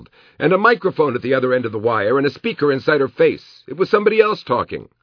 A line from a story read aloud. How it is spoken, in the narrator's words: Kevin yelled